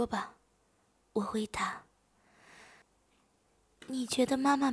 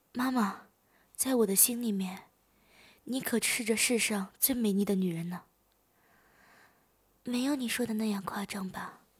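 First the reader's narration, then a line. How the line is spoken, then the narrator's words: Smiling. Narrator (Chinese): 母亲向我笑了笑说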